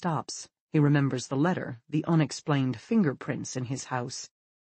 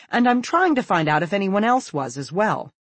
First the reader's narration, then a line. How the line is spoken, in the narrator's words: she says hastily